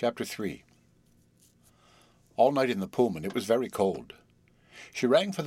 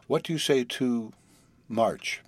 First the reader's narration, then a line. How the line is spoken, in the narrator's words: he said very slowly